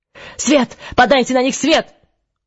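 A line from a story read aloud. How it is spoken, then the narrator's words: Shouted into microphones. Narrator (Russian): заорал Крато в микрофоны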